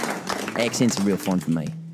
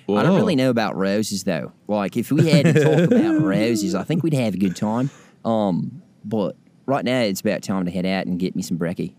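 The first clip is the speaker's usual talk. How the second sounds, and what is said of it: Put-on Australian accent. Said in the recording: “I get to do an Australian accent ... That's pretty good.”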